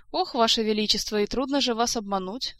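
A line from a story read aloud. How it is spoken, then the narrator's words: Mock sigh. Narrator (Russian): притворно вздохнула Ольга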